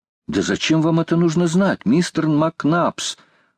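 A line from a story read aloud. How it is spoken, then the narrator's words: Exclaimed. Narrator (Russian): воскликнул Роберт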